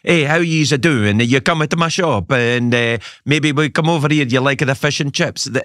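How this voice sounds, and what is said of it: Italian-tinged Glaswegian accent. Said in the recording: “they speak Glasgow accents, but they have Italian Glasgow accents.”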